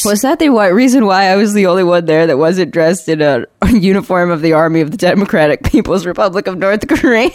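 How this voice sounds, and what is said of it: Heavy vocal fry, sick voice. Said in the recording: “I've had a cold for a couple days ... vocal fry getting worse? Yes. The answer is yes.”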